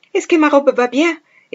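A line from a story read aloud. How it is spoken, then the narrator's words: Exclaimed. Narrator (Italian): esclamò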